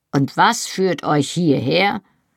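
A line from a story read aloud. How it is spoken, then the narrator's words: Grumbled. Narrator (German): brummte er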